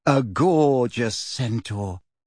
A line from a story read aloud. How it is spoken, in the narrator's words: sighed Parvati